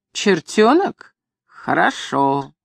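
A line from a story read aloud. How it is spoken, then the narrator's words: Snide remark. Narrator (Russian): Худощавый мастеровой по запаху скорняк сказал ехидно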